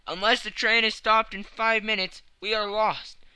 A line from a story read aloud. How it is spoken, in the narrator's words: he cried